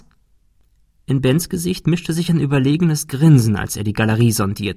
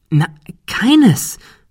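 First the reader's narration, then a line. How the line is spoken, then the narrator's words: Excited explanation. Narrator (German): erklärte Ben aufgeregt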